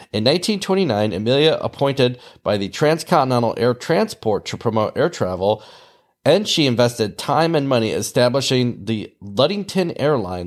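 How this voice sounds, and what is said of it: Nasal Midwestern American accent. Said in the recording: “This nasally accent that you're listening to doesn't come from the East Coast. It comes from the Midwest.”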